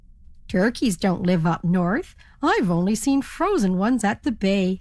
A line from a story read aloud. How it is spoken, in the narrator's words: laughed the ferry captain